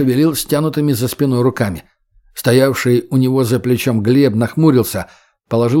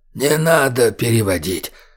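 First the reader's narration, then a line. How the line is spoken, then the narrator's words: Hoarse wheeze. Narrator (Russian): прохрипел падре Джеронимо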